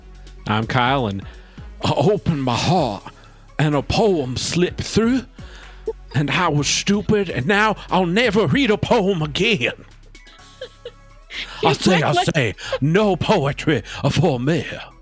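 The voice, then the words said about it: Brief Scottish-sounding accent. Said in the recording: “You sounded Scottish for like a hot second.”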